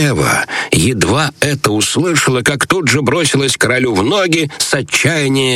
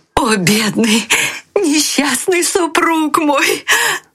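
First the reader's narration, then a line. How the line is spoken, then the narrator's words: Crying out. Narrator (Russian): кричала она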